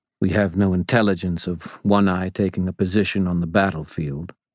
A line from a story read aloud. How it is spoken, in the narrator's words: Listen said calmly